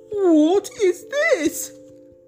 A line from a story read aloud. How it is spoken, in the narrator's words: cried the elephant